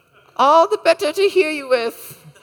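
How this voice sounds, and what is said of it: Wolf imitating a grandma voice. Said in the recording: “my imitation of a wolf imitating a grandma”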